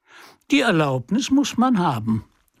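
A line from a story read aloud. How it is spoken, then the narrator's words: Mocking reply. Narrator (German): war die Antwort, und es lag darin ein großer Spott für K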